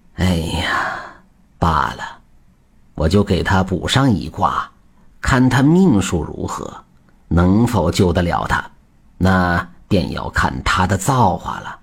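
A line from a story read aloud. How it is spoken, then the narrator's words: Long sigh, reluctant. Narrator (Chinese): 徐半仙不忍，长叹一声说道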